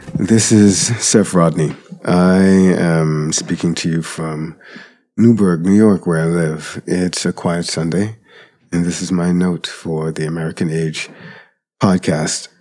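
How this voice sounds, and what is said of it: Slightly off voice from a cold. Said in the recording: “My voice may be a little bit off today. I'm getting over a cold.”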